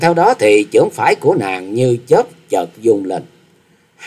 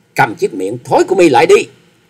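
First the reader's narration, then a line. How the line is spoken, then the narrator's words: Loud shout. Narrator (Vietnamese): Trịnh Bội Hà quát to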